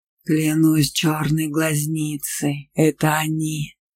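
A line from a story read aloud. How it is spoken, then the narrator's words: Sorcerer's growl. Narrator (Russian): прорычал колдун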